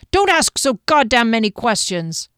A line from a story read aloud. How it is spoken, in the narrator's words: the chief hollered